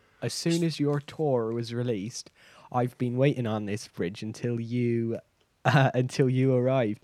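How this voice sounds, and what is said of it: Bristol accent. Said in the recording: “That's not the accent I expected, honestly... Well, I'm from Bristol, so this is my accent.”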